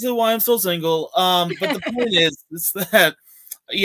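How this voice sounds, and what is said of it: Usual voice. Nothing is said of it.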